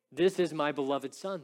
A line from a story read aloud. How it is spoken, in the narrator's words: the Father said